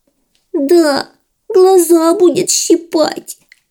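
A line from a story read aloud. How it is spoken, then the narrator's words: Whimpering. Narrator (Russian): захныкала заморашка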